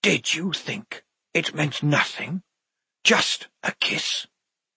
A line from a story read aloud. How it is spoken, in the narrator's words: The whispered words washed against the walls like surf and came back stronger in harmonies